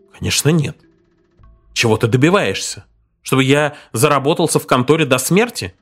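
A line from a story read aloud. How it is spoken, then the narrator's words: Snapping retort. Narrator (Russian): огрызнулся он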